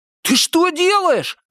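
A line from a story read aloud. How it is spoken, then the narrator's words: Shout. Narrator (Russian): крикнул Виктор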